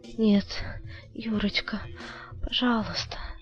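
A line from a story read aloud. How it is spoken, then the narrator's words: Ashamed whisper. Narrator (Russian): прошептала Людмила красно от стыда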